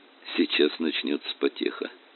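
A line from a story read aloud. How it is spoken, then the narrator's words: Muttered, professor. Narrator (Russian): пробормотал профессор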